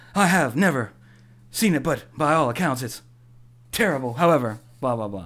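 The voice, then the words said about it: Imitates another person's voice. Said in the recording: “Sound like Shatner doing a Michael Caine impression ... This is my William Shatner”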